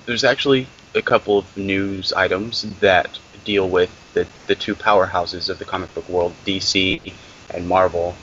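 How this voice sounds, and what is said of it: Sick, rough-sounding voice. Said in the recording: “my voice sounds a little bit scary right now ... I've been sick for about a week, so I'll try not to hack all over everybody”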